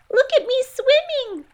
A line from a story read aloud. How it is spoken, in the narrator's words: squeaked Roo